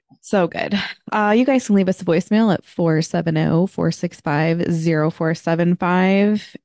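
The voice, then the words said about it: Voice in poor condition. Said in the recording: “I can hear just how much my voice is not great this week”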